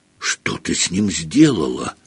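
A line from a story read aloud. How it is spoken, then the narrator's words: Whisper. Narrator (Russian): прошептал Гарри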